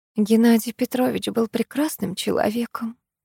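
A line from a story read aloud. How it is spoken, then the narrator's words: Whisper. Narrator (Russian): прошептала миловидная шатенка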